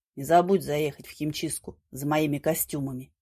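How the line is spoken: Muttered. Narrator (Russian): Володя, не поднимая глаз от телефона, буркнул

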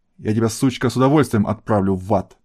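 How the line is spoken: Angry growl. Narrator (Russian): зло прорычал агент ЦРУ

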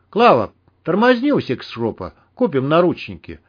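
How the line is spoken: Calm. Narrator (Russian): спокойно сказал Герман

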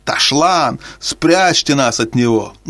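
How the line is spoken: Animals moaning, roaring, shouting. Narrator (Russian): Звери застонали, заревели и закричали

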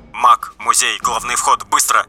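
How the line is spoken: Muffled rapid mutter. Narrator (Russian): приглушенный голос Экселленса пробормотал скороговоркой

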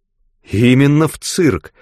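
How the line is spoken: Exclamation. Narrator (Russian): воскликнула

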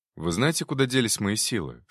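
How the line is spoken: Plain. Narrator (Russian): спросил я

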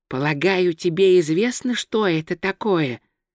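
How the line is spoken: Whisper in the ear. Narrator (Russian): прошептал ему на ушко Два Цветок

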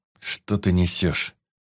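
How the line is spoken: Irritated, through teeth. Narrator (Russian): Раздраженно процедил я

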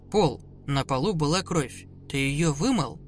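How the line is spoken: Calm. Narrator (Russian): спокойно ответив

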